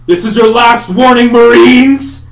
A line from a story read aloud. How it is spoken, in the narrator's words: Whitebeard shouts again